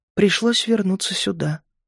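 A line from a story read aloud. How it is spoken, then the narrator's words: Whisper. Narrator (Russian): прошептала она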